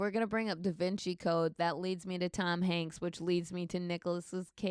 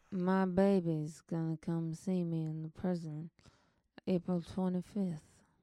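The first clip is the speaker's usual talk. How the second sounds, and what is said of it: Nicolas Cage impression, thick-tongued. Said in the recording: “Nicolas Cage's fucking accent in this movie... He sounded off... pretend that your tongue is just a is like slightly swollen... you've lost some some sensation... It was better”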